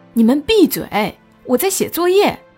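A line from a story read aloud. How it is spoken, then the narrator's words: Loud scolding. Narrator (Chinese): 他大声呵斥我们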